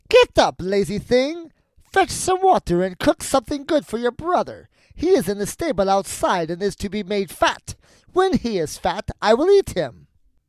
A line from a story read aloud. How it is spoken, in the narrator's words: cried